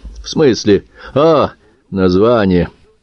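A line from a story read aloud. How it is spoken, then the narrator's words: Snorting grunt. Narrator (Russian): Лаврик хмыкнул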